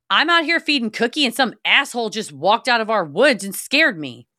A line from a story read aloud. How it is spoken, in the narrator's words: I loudly said